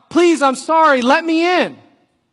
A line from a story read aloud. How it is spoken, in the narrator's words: them yelling out